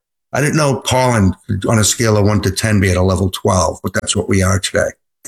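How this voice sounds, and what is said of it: Congested, allergy-affected voice. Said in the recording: “you can hear it in my voice”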